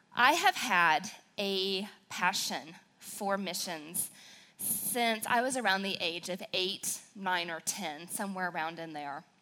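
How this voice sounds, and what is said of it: Regional American accent. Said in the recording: “I do talk a little funny ... since I'm from southern Wisconsin, I have more of that accent ... there'll probably be a few y'alls mixed in ... you may have to listen a little harder ... when I get excited, it tends to come out more”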